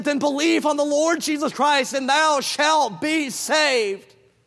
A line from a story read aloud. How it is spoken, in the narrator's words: John Harper cried back, he said